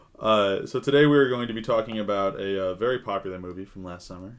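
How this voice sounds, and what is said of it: Very calm, flat monotone voice. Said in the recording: “my very calm, monotone voice”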